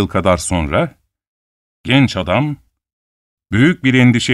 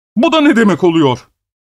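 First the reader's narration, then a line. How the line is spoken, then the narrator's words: Shouting. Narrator (Turkish): diye bağırdı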